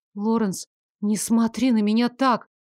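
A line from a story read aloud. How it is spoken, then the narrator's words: Pleading. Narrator (Russian): взмолилась я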